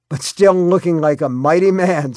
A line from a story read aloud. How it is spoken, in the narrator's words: Scott said and laughed